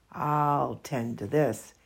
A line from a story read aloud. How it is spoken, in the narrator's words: he chuckled